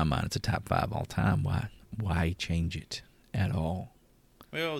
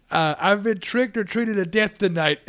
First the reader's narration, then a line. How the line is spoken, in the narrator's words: Loomis just yells at him